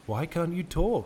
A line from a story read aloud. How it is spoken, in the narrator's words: ventured timidly